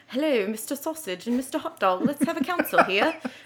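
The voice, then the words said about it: Put-on aristocratic British accent. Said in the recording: “I don't know why I went British... when you're trying to go like aristocratic, it's always going to be a British accent”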